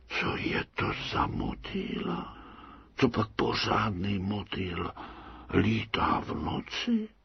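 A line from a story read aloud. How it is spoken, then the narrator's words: Whispered. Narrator (Czech): můry zašeptali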